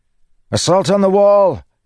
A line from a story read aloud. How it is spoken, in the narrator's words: Kaladin shouted